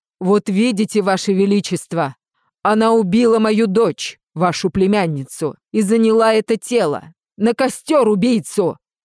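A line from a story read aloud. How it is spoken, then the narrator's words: Furious father roaring. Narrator (Russian): взревел отец Эвелин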